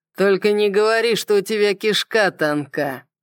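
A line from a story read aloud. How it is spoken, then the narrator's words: Mocking drawl. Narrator (Russian): насмешливо протянул Сойер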